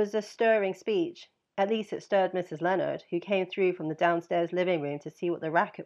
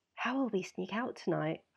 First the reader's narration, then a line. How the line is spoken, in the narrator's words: I asked in a whisper